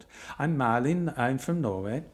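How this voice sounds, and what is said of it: Put-on Norwegian accent. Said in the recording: “That was my best Norwegian accent”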